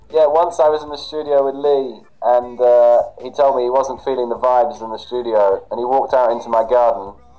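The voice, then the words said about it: London accent. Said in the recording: “You have a nice London accent”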